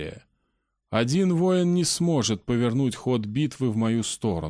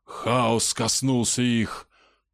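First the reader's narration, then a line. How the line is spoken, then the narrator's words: Growling. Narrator (Russian): прорычал Петр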